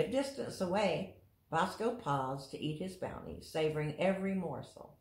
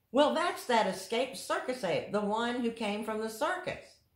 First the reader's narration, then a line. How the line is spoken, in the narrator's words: someone cried